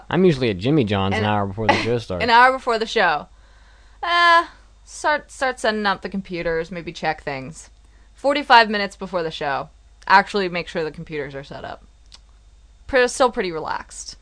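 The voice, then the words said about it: Imitates another person's voice. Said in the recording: “do a Mitsugi impression”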